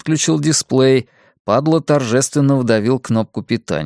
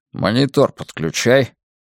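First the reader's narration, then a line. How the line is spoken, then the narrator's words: Muttering. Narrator (Russian): Буркнул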